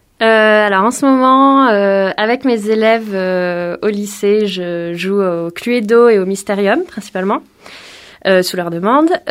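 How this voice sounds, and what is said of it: Noticeable regional accent. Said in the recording (French): “Désolée pour l'accent. ... je ne t'en veux pas pour l'accent, j'ai le même.”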